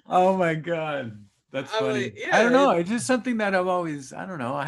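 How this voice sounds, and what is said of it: Cholo accent. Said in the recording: “why do you guys always talk like that? ... this accent ... I'm doing it right now ... they talk like cholos”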